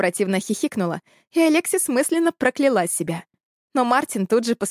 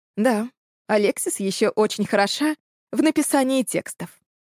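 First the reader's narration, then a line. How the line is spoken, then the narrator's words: Calm. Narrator (Russian): спокойно сказал он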